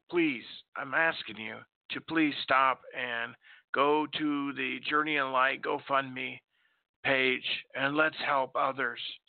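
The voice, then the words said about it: Strained voice, partly lost. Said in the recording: “I don't know why I lost my voice. My voice has been good all day.”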